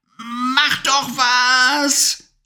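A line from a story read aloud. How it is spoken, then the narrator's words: Shouting. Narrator (German): schrie Levi die Hexe an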